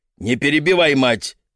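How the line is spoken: Barking at daughter. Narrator (Russian): Дмитрий Михайлович не упустил возможности рявкнуть на дочь

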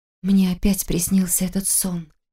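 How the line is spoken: Hoarse mutter. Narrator (Russian): хрипло пробормотала Таня

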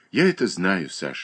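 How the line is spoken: Sighed. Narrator (Russian): вздохнула Катерина Александровна

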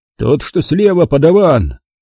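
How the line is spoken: Shout. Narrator (Russian): крикнул он

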